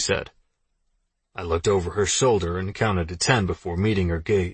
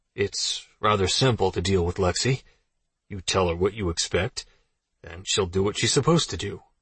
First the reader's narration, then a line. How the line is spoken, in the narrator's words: I said, keeping my voice calm